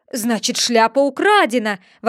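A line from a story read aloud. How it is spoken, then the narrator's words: King exclaiming. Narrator (Russian): воскликнул король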